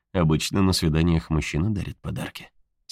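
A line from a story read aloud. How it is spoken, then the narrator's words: Quiet speech. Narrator (Russian): тихо сказал Хэл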